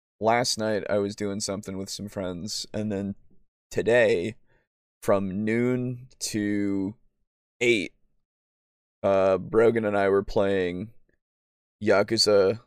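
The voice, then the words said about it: Worn-out, strained voice. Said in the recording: “My voice is kind of starting to get shot because I've been talking a lot”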